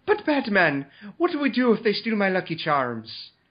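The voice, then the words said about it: Bad stereotypical Irish accent, Chief O'Hara. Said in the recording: “Chief O'Hara, in a really bad Irish stereotype accent.”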